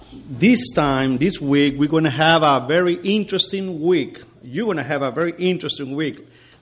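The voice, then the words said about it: Non-native English accent. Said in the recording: “a preacher that has courage to do God's job in another language that is not his. As you can tell, my accent is going to give you a little trouble.”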